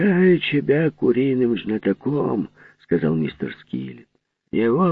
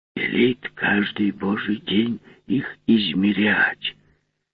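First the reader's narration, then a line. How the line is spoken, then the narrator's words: Mysterious whisper. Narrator (Russian): таинственно шепнул он плотнику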